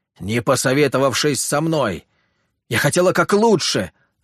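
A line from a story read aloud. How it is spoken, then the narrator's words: Girl shouting. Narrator (Russian): выкрикнула девушка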